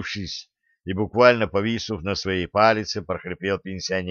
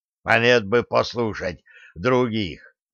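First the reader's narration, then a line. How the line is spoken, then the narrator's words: Hoarse reply. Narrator (Russian): хрипло ответил Лихой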